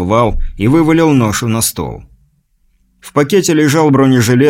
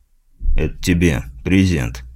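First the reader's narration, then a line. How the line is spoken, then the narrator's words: Plain. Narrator (Russian): сказал Вал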